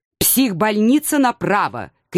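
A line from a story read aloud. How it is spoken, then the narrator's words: Shout. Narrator (Russian): крикнул мне ученый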